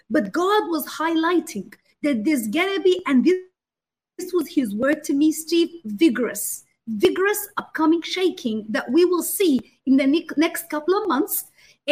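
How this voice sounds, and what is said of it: Australian accent mixed with Arabic. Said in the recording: “In case anyone doesn't understand her accent ... They can probably hear more the Australian. The Australian is in the Arabic.”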